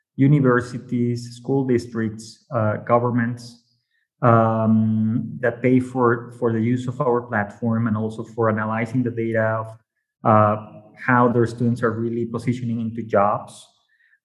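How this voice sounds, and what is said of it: Mexican Spanish accent. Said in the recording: “maybe by my accent, you might know I'm from Mexico”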